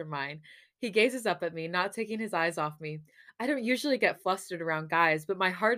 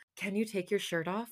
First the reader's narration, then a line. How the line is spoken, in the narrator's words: whisper into his lips